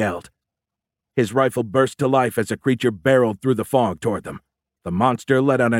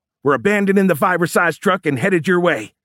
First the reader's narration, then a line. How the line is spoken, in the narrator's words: Fisher yelled into his radio